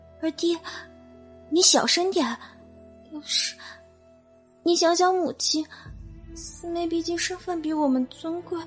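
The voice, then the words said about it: Quiet, timid young girl's voice. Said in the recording (Chinese): “小声的夹杂着一个弱弱的女孩的声音”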